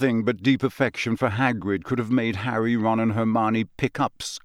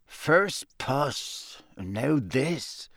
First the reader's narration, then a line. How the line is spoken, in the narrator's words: muttered Seamus